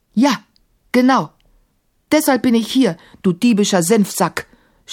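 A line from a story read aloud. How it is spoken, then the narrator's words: Shouting as loud as possible. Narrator (German): schrie Maimun so laut er konnte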